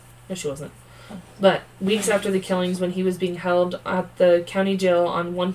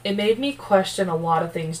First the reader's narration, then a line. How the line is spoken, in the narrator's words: Charlie said